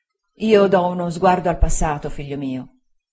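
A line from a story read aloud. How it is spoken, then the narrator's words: Plain. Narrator (Italian): disse mia zia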